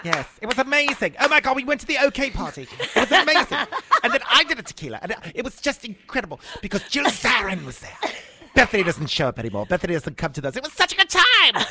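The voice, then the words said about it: Imitation of a British tabloid reporter. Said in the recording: “British tabloid reporter ... That's a pretty good imitation of him, isn't it? ... It is fantastic.”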